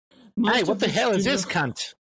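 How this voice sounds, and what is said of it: Put-on accent. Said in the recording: “I used to be way better at that accent. ... It was very good.”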